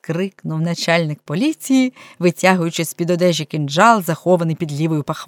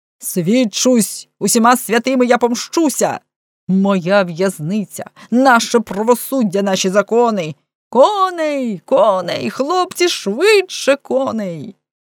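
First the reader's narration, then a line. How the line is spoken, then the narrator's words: Angry shout. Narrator (Ukrainian): крикнув злісно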